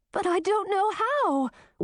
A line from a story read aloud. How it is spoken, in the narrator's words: wailed Grisina